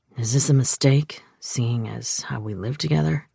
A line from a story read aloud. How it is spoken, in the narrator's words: He asked gruffly